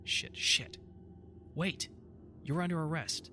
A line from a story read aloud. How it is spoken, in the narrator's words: said firmly